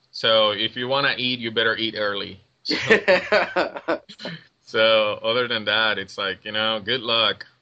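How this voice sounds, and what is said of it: Puerto Rican accent. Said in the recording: “I'm from Puerto Rico. For those who don't know, you can hear the accent.”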